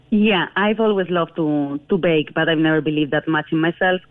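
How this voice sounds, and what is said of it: Spanish accent. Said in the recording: “I can tell from your accent that you're from Spain”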